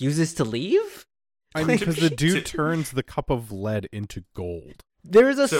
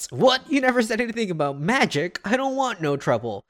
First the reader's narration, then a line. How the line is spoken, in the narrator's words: He just shouts